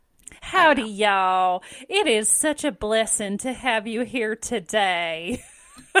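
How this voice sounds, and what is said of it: Slow Southern Baptist accent. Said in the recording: “It's a southern... It's a slower southern,... Baptist.”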